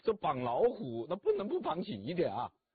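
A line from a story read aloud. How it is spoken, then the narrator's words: Laughing. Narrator (Chinese): 曹操就笑了，说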